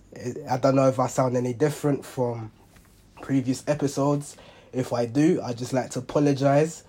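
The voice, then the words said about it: Very hoarse voice. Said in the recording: “my voice is really hoarse. Really, really hoarse. ... I'm a little bit under the weather, so there's two reasons why my voice might sound a little different”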